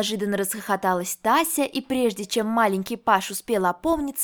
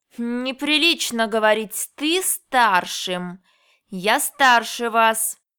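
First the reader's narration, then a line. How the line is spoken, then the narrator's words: Through gritted teeth. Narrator (Russian): процедил сквозь зубы Викторик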